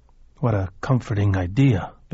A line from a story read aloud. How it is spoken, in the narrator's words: Billy croaked